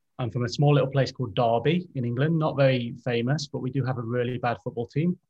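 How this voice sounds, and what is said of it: English accent. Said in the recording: “As you're probably already starting to gather from the accent, I'm from England.”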